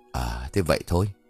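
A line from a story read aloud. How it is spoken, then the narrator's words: Long sigh, then laughing. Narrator (Vietnamese): Tuấn thở dài thườn thượt, sau đó cười rồi bảo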